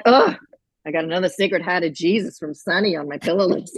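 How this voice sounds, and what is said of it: Imitated mother with Boston accent. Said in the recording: “my mother doesn't really have much of a Boston accent anymore, except for when she says Catholic things.”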